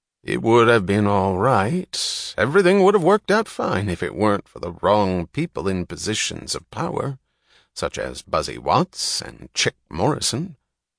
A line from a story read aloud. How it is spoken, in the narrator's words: The chairman said, his voice pointedly noncommittal, yet vaguely purposeful at the same time